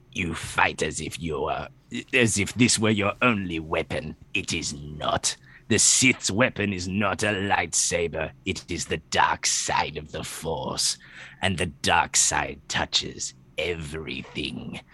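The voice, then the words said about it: Palpatine character voice. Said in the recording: “I'll do the Palpatine voice.”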